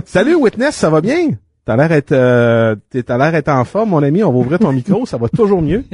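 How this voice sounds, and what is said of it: Put-on Haitian accent. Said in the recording (French): “Je vais en dire avec un accent haïtien.”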